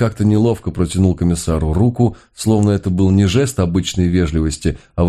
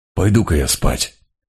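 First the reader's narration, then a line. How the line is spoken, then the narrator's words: Muttering. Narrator (Russian): пробормотал Мигре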